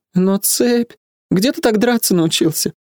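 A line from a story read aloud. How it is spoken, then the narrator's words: Sigh. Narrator (Russian): Я вздохнул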